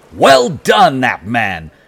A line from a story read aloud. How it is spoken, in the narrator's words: a sharp, clipped voice shouted